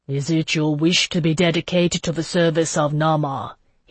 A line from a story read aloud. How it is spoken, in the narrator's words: he asked me, his voice solemn